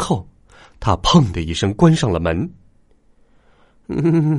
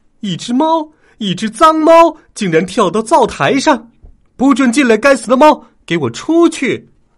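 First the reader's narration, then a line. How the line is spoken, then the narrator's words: Mother suddenly yelling. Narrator (Chinese): 妈妈突然大喊起来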